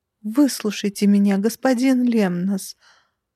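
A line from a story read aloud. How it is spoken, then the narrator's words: Tragic tearful strained voice. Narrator (Russian): Полным трагизма голосом сквозь слезы выдавила я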